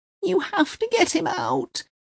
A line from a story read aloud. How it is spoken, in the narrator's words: she cries